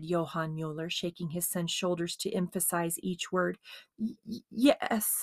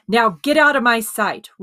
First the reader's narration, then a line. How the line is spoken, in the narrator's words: roared his father